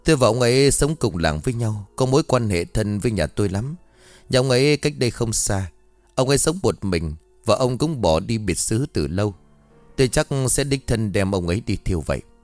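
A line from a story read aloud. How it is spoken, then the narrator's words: Sighing. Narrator (Vietnamese): Lâm liền thở dài rồi nói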